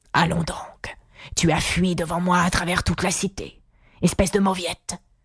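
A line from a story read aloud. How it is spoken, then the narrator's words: Furious lion's retort. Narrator (French): répliqua le lion d'une voix furieuse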